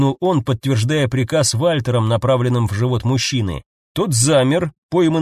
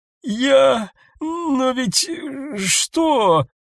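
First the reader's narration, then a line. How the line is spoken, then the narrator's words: Strained, halting. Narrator (Russian): Сумел выдавить он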